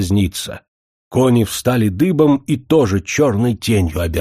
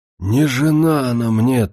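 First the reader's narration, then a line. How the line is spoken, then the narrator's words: Strained hoarse croak. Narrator (Russian): только и смог прохрипеть Андрейка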